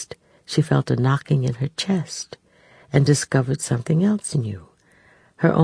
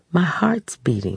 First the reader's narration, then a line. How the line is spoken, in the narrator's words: she said